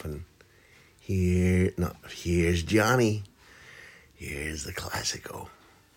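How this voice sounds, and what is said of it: Weak Jack Nicholson impression. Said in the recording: “in a Jack Nicholson voice, which I can't do”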